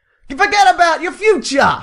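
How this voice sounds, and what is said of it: Put-on New York accent. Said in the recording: “Can you do it in your New York accent?”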